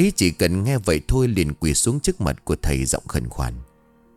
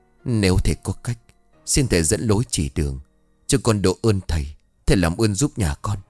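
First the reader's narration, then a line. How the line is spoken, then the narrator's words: Tearful, choked old man. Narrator (Vietnamese): Ông mếu máo nói như nghẹn ngào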